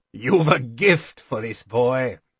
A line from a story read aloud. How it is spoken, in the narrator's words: Chade chuckled